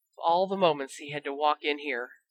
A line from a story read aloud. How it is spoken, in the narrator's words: Ron muttered